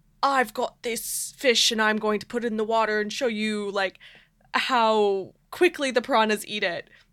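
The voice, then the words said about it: Brief put-on British accent. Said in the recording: “I couldn't do the British accent very long, as you could tell.”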